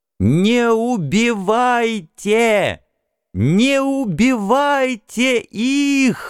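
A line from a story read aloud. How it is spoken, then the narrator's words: Strained shouting. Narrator (Russian): надсадно кричал я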